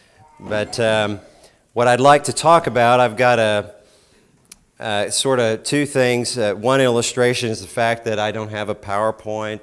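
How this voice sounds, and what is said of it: Rough, hoarse voice. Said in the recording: “My voice is a little rough”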